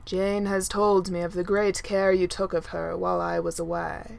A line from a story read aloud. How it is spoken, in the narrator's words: Thor says gravely